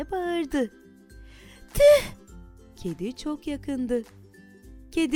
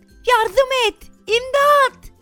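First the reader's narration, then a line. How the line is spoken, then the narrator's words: Shouting. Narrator (Turkish): diye bağırdı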